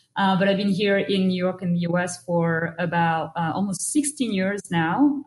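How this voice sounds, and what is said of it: Slight French accent. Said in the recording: “I have a little accent, and that's not from Brooklyn. It's from France”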